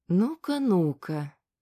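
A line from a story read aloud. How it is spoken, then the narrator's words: Thin icy sing-song. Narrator (Russian): пропела она тонким голоском, в этот раз отдающим льдом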